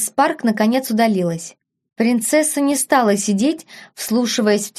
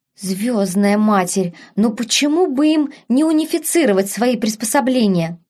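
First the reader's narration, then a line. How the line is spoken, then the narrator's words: Irritated whisper. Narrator (Russian): раздраженно шептала принцесса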